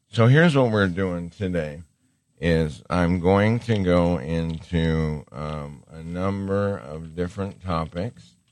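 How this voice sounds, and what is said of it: Hoarse, sore-throated voice. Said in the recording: “excuse my voice ... I'm getting a little bit of sore throat”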